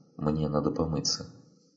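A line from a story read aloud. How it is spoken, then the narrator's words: Calm, female. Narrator (Russian): Лейла спокойно произнесла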